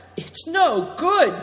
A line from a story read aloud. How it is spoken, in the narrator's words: cried Good Fortune from a safe distance